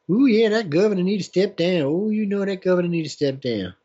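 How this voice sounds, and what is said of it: Bad put-on mocking accent. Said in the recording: “Bad accent.”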